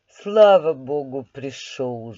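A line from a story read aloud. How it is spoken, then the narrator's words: Lively exclamation. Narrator (Russian): живостью воскликнула мать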